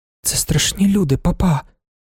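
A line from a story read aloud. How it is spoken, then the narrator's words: Whisper. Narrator (Ukrainian): шепнула вона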